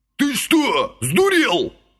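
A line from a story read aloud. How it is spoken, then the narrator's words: Barked. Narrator (Russian): рявкнул Василий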